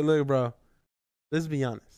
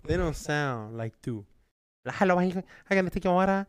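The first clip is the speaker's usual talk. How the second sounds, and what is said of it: Exaggerated put-on accent. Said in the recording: “Accent. That accent's a little exaggerated”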